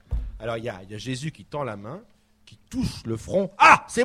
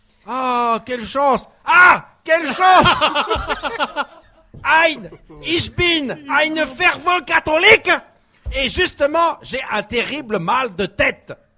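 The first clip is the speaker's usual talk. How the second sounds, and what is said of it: Put-on German accent in French. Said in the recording (French): “Il a pas l'accent ... je fais l'accent aussi ... il faut que je fasse l'accent aussi”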